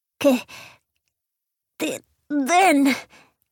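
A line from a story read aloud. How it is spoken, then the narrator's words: Fierce proud panting child. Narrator (Spanish): jadeó el niño con una expresión feroz, reemplazado el miedo por el orgullo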